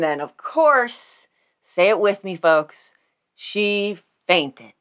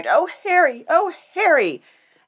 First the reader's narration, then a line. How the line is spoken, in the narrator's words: cried